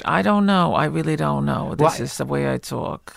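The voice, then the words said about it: Slight accent, possibly Jewish. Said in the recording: “You speak with a slight accent. Is that, what is that? ... what I always assume is they just mean I have a Jewish accent”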